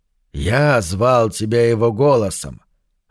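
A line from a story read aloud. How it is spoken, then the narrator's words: Plain demon's voice. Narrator (Russian): ответил демон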